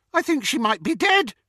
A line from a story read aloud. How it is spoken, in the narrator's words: he shouted with delight